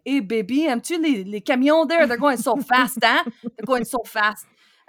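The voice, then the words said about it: Thick Quebecois French accent. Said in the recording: “he had this just thick, thick accent ... Quebecois”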